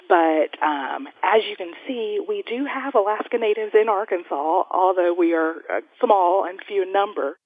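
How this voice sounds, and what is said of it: Arkansas accent. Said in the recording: “If it's not already clear from her accent, ... grew up in Arkansas.”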